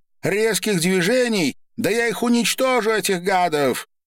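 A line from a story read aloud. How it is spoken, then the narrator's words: Loud shout. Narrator (Russian): громко выкрикнула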